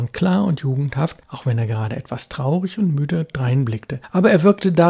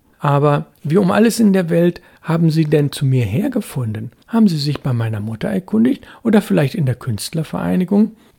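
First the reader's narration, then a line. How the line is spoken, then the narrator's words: Laughing. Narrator (German): Gerd lachte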